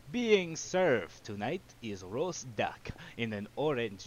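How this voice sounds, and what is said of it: Weird put-on character accent. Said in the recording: “This is a weirder accent. He's just gonna switch accents”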